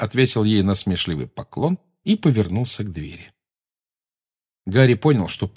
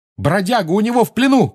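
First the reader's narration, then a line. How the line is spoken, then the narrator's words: Shouted. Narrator (Russian): крикнул он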